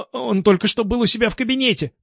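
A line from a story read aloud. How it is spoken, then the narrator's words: Girl babbling timidly. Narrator (Russian): пролепетала девушка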